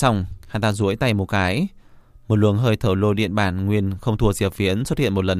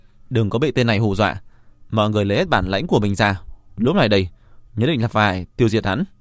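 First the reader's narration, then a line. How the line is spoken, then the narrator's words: Raised rousing voice. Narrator (Vietnamese): chấn động tinh thần, cất cao giọng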